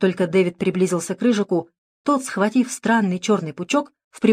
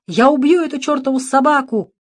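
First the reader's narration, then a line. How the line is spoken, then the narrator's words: Yelling. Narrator (Russian): орал он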